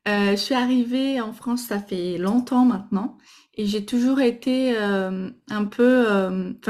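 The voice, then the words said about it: Slight Brazilian accent speaking French. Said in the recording (French): “je suis brésilienne, donc euh, vous allez sûrement entendre un petit accent”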